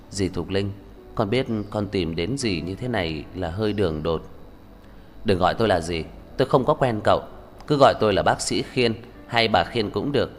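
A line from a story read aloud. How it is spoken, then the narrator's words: Quiet voice. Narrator (Vietnamese): Cậu ta nhỏ giọng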